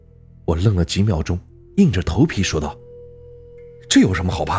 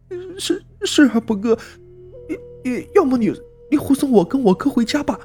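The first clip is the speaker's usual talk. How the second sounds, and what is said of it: Trembling, stammering frightened voice. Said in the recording (Chinese): “用颤抖的声音说道”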